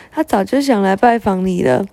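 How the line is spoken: Old woman laughing loudly. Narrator (Chinese): 豇豆婆子大笑着说

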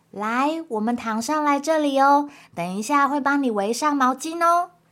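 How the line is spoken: Doctor, very gentle. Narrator (Chinese): 啄木鸟医生非常温柔的说

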